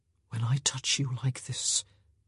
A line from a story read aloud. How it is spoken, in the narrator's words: he whispered, his voice perilously close to her ear